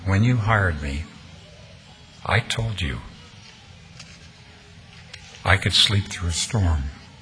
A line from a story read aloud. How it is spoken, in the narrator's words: The foreman responded calmly